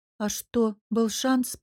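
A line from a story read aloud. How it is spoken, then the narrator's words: Muffled grumble. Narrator (Russian): проворчала я, уткнувшись в шею Мирона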